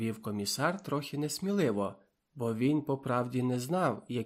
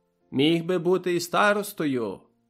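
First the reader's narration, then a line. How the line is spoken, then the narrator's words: Bold voice. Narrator (Ukrainian): Передав комісарову відповідь, але зовсім сміливим голосом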